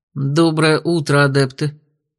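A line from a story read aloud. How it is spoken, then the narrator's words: Even, level voice. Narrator (Russian): ровным голосом произнес Георг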